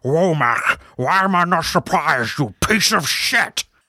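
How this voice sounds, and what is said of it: Strained Sean Connery impression. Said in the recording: “Sean Connery delivering stuff like ... Wow, that was an accent. ... It sounded like I had a piece of anatomy stuck in my throat.”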